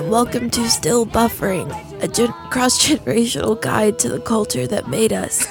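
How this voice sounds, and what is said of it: Hoarse, strained voice. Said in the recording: “the dreaded mononucleosis has attacked my vocal cords and left me with this shell that I once filled with a beautiful voice”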